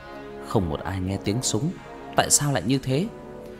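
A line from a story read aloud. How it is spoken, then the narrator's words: Mutter. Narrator (Vietnamese): Cậu ta lẩm bẩm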